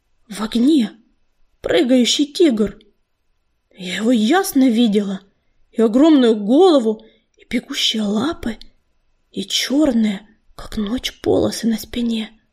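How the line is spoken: Hoarse healer's voice. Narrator (Russian): хрипло заговорила целительница

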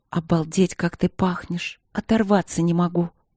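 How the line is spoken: Soft moan. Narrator (Russian): Она застонала тихонько

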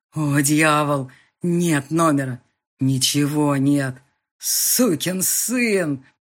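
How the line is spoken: Groaning. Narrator (Russian): Застонал Макану

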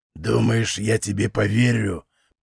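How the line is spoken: Muttered through teeth. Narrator (Russian): процедил он

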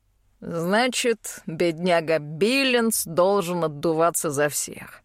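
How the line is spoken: Smirking grunt. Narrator (Russian): хмыкнул Голд

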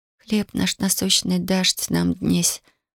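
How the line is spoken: Whispering. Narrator (Russian): прошептала Татьяна

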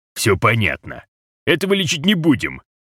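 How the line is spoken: Dismissive snort. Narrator (Russian): фыркнул тогда Розе

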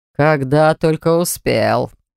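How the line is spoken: Growling. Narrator (Russian): прорычал Кейлор

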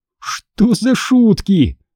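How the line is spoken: Exclaimed. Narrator (Russian): воскликнул

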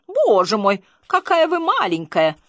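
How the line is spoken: Surprised exclamation. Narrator (Russian): она воскликнула удивленным тоном

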